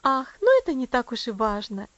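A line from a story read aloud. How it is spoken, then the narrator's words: Cheerful remark. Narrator (Russian): весело заметила миссис Мюррей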